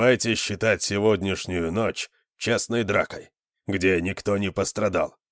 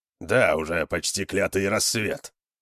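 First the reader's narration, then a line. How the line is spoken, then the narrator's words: Grumble. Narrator (Russian): проворчал Конан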